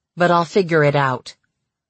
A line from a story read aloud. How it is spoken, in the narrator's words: she said icily